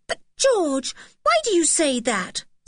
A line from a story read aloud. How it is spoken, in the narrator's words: said Anne impatiently